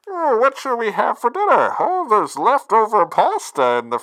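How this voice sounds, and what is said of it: Imitates Bane movie villain voice. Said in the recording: “terrible Nolan Bane impression ... you whip out the Bane voice on something very mundane”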